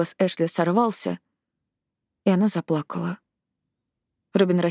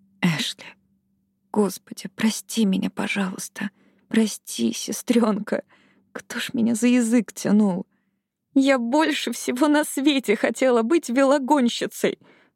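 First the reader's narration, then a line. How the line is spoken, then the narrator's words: Sobbing speech. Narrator (Russian): всхлипывая, заговорила Эшли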